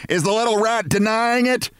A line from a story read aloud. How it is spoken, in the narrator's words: She screamed